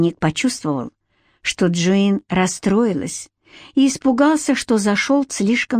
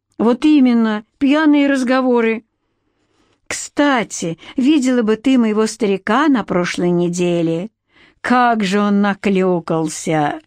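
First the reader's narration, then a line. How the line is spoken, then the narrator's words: Laughing aloud. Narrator (Russian): Доминик рассмеялся вслух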